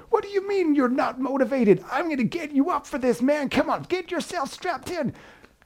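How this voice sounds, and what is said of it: Shouty American personal trainer accent. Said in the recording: “accent and that was my impression... I went for the kind of the shouty American PT type”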